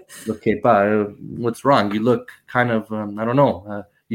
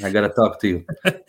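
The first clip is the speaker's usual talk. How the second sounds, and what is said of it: Thick Italian accent. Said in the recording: “with his thick Italian accent.”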